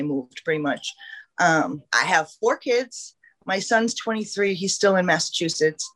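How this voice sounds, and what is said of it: New England accent. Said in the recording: “this girl's from New England. ... The accent”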